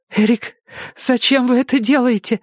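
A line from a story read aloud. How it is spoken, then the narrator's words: Trembling voice. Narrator (Russian): дрожащим голосом спросила Джеки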